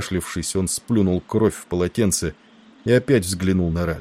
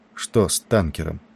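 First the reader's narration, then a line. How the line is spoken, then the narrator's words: Sudden quiet question. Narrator (Russian): вдруг негромко спросил Ральстон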